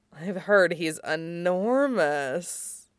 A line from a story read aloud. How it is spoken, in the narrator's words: Midnight purred, pausing for effect